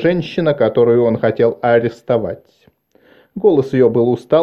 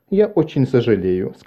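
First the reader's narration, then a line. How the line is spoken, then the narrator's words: Plain. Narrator (Russian): сказала женщина-начальник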